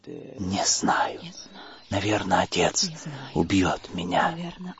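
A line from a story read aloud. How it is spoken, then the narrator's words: Whispered. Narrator (Russian): прошептала она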